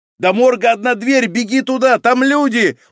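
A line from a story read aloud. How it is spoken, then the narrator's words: Hurried shout. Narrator (Russian): успел крикнуть участковый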